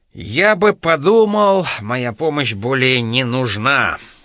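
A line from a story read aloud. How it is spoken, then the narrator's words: Haughty scoff. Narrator (Russian): Байрон надменно хмыкнул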